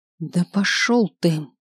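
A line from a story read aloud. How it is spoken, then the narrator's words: Angry exhale. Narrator (Russian): Зло выдохнуло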